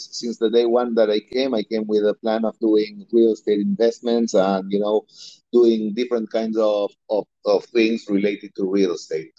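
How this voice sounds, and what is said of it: Slight Argentine accent. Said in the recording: “I hear a little bit of an accent ... I'm originally from Argentina”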